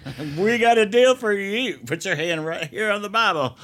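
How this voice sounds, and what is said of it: Put-on Texas accent. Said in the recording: “That's a totally different accent. I was giving you Texas right there.”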